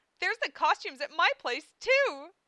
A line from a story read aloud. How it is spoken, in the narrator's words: cried Amelia